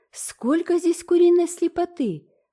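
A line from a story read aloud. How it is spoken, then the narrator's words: Exclamation. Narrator (Russian): воскликнула Диана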